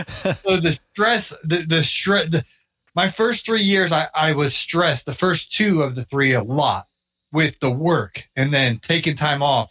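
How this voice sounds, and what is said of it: Strained, worn-out voice. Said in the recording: “my voice is going”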